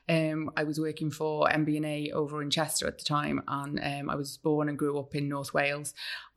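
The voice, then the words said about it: Non-local accent. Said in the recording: “as people will hear from your accent very quickly, you're not from this part of the world”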